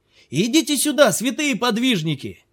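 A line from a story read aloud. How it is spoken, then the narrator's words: Distant shout. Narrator (Russian): крикнул он с расстояния 50 ярдов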